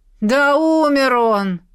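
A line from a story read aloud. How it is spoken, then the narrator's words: Shout from the crowd. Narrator (Russian): крикнул кто-то из толпы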